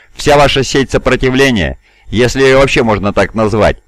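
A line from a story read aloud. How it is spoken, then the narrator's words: Ironic snort. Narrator (Russian): иронически фыркнув, произнес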